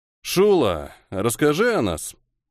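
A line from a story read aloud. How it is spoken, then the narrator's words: Lazy drawl. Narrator (Russian): лениво протянул Нейра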